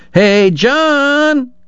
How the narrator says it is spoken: yelling

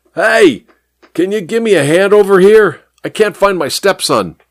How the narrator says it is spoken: He yelled at the traffic cop

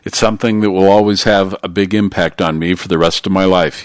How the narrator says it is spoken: he said

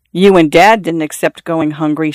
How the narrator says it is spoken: Xiao Shui said

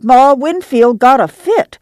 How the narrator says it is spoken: she cried

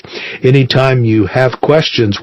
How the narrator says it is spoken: Weish said

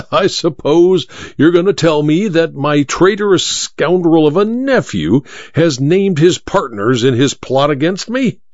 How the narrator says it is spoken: said the Duke with a harsh laugh

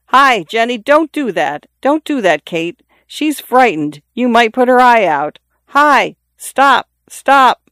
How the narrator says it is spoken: He called to the children urgently

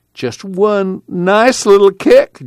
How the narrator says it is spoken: Jewel pleaded

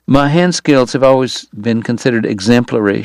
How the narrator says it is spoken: she giggled

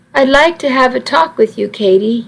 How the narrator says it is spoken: said

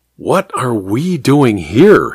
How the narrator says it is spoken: murmured

